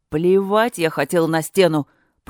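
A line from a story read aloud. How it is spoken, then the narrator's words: Roaring bear. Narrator (Russian): проревел ее медведь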